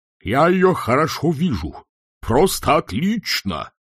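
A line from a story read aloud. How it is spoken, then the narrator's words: Loud yell. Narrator (Russian): завопил декан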